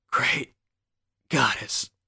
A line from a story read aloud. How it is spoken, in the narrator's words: whispered smiling